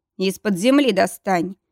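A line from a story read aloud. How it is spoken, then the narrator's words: Growl. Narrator (Russian): рыкнул лорд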